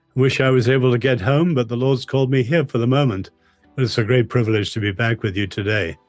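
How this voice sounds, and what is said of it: English accent. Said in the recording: “you certainly sound English. You haven't changed your accent any.”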